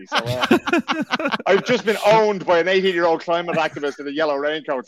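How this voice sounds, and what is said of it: Dublin Irish accent. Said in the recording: “my Dublin accent”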